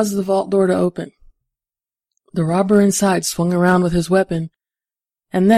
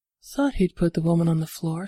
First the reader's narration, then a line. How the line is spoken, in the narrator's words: Cecile murmured